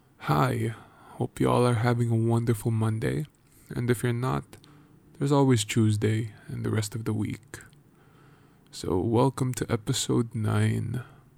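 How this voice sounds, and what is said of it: Tired, exhausted-sounding voice. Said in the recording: “If you can't hear it by my voice, but I am exhausted with life.”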